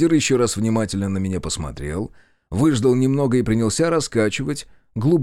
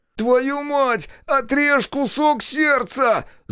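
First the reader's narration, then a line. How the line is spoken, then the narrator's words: Yelled. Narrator (Russian): заорал я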